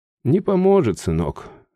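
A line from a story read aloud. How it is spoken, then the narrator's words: Mother sighing. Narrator (Russian): вздохнула мать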